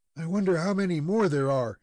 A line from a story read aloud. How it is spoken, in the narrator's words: exclaimed the lad